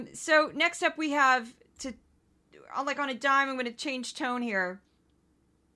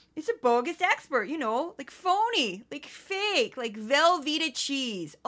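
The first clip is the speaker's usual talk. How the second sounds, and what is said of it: Goofy put-on Midwestern accent. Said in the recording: “I do a goofy Midwestern voice”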